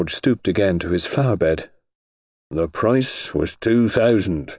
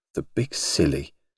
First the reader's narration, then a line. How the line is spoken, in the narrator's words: murmured Alex to herself